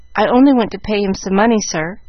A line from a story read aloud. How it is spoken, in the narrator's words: The question was so kindly put that Jack forgot himself an instant and blurted out